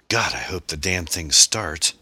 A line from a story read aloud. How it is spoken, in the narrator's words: he exclaimed, elated that they had made it this far